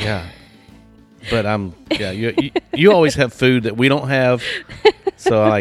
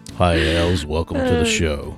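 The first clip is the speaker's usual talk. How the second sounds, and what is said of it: FM radio announcer voice. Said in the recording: “try an FM voice.”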